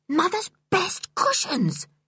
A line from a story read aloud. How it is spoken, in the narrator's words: she whispered